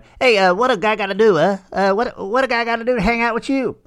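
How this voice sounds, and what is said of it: Poor gangster character voice impression. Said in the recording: “I almost sounded like Tony Soprano there for a minute... terrible Tony Soprano impersonation... Almost sounds more like Bugs Bunny”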